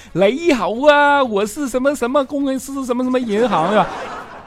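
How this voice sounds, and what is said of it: Put-on Cantonese accent in Mandarin. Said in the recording (Chinese): “广东口音”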